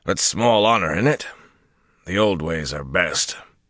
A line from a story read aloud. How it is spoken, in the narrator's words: Wyroman intoned, then muttered